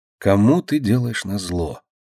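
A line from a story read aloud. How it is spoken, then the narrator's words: Quiet whisper. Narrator (Russian): тихо прошептала она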